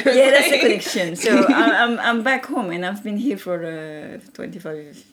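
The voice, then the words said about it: Weird foreign accent. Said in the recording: “I just have a weird accent.”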